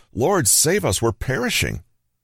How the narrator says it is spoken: They cried out to him

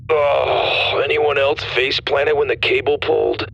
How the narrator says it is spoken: Dallas groaned

